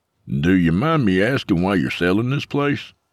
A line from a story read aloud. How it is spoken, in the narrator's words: Mike chuckled self-deprecatingly as he tried to restrain his bitterness